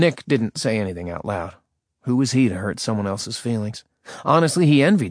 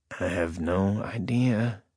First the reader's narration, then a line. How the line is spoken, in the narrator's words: Nick mumbled